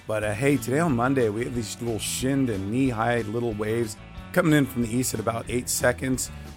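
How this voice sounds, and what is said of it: Weak, not fully recovered voice. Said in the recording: “giving my voice a little bit of a rest. It still hasn't come back yet.”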